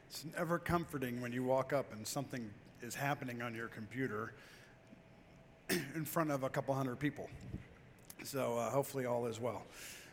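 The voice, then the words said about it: Unwell, strained-sounding voice. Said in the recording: “I apologize for my voice. ... I really thought I was safe to start a cold 2 weeks ago”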